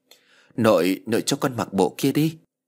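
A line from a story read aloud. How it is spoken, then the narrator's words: Hesitant child. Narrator (Vietnamese): ngập ngừng nói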